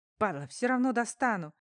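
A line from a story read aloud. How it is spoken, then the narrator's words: Desperate growl. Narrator (Russian): в отчаянии прорычал копейка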